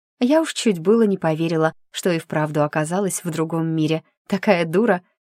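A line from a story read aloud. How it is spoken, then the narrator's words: Happy, smiling. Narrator (Russian): радостно улыбнулась блондинка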